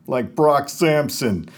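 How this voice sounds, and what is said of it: Impression of Brock Sampson. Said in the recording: “That's a pretty good Brock Sampson.”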